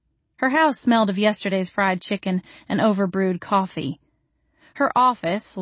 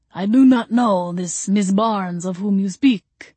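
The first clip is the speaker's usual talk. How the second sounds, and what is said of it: Deep, obviously fake Transylvanian accent. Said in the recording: “in a deep, obviously fake Transylvanian accent”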